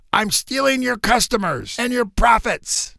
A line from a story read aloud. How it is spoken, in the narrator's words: he was shouting in a pirate's voice